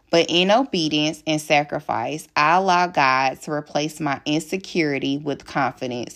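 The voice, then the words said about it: Southern US Alabama country accent. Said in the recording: “I disliked the country accent ... my Alabama accent”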